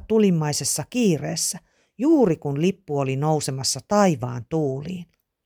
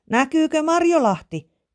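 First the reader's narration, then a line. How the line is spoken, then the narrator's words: Shouted question. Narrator (Finnish): Emeli huusi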